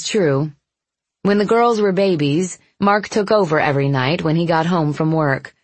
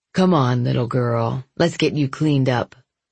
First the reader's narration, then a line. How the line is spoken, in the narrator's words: he murmured into her ear